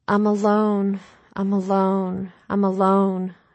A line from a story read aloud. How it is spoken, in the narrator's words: she moaned